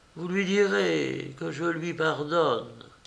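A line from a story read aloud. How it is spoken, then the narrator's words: Dying murmur. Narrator (French): ses dernières paroles, elle a murmuré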